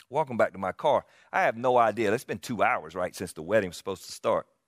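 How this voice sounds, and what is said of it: South Carolina Southern accent. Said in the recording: “South Carolina boy. I cannot hide it with this accent”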